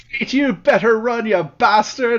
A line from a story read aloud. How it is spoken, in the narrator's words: jeering at him as he runs